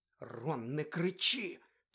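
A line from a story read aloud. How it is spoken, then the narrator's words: Anxious whisper. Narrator (Ukrainian): тривожно зашепотіла Герміона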